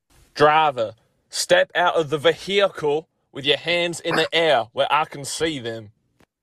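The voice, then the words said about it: Fake American accent, police officer voice. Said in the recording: “that is his impression of American police officers ... your fake American accent”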